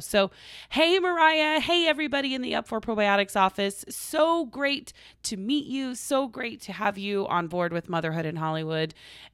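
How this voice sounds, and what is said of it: Strained, fading voice. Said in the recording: “I'm losing my voice. I've been talking a lot this past weekend.”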